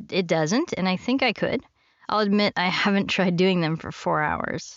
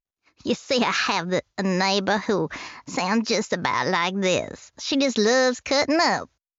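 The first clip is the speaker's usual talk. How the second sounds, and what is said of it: Character voice with vocal fry. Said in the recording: “character voices that I love doing that involve some vocal fry”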